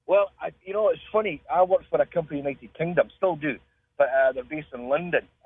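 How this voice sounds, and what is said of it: Scottish accent. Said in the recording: “you get bored of the accent”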